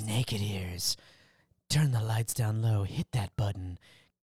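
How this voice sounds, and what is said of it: Imitates a character's voice. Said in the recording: “That, that was a very Leon Phelps right there. ... my best Leon Phelps impression.”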